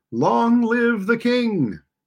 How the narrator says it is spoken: all the people shouted

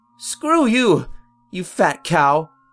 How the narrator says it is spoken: barked back

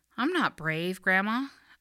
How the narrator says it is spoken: I said

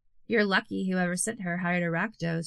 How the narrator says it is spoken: she said

